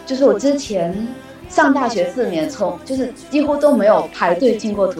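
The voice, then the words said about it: Strong Fujian accent in Mandarin. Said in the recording (Chinese): “是福建人吗？...听出来了...你的口音实在是太明显了”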